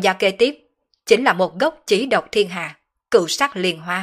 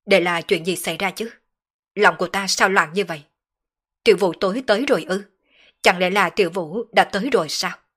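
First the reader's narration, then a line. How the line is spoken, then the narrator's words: Agitated troubled muttering. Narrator (Vietnamese): Sở Dương nhíu mày, đột nhiên trở nên tâm phiền ý loạn, không chế không nổi tâm tình muốn phát tiết, hắn lẩm bẩm nói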